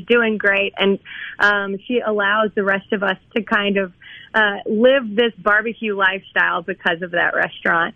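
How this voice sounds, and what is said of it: Somewhat raspy voice. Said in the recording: “my voice is somewhat raspy”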